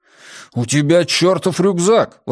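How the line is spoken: Exclaimed. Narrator (Russian): воскликнул Джеспер

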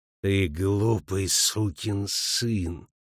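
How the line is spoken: Pastor speaking through teeth. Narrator (Russian): процедил паштор

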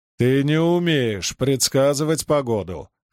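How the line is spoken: Short laugh. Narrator (Russian): хохотнул он

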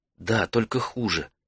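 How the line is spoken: Whispered reply. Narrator (Russian): шепотом ответила она

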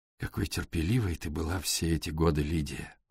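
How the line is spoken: Soft. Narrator (Russian): мягко произнес Элфред

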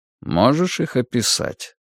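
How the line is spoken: Calm. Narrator (Russian): спокойно продолжал Вальтер

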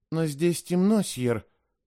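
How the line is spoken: Uncertain. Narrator (Russian): неуверенно сказал я

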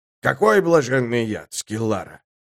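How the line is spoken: Grumbling. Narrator (Russian): Последовало новое ворчание

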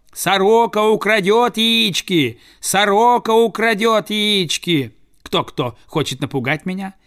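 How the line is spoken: Shouted through cupped hand. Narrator (Russian): Приставив руку ко рту, он закричал

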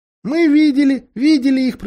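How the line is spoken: Squeaky mouse voice. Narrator (Russian): пропищала мышь

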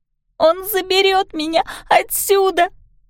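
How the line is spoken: Screaming through sobs. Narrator (Russian): кричала она, задыхаясь от горьких рыданий

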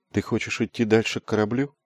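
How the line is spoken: Soft question. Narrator (Russian): мягко спросила Лайт

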